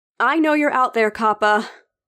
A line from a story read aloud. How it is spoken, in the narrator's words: I shouted